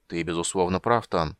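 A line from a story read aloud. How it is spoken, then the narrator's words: Muttering tall dwarf. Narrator (Russian): пробормотал рослый гном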